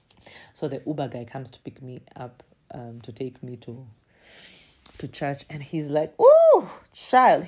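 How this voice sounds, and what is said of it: Speaks English with non-local accent. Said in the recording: “he caught on the accent. He's like, "Oh, this, she's definitely not from here."”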